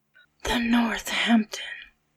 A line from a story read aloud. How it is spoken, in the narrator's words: Dick said in a whisper